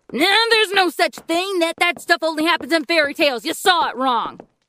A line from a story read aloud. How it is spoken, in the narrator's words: Walter yelled